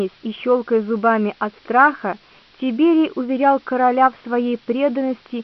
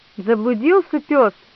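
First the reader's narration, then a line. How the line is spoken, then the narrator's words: Exclaimed. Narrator (Russian): воскликнул Валерий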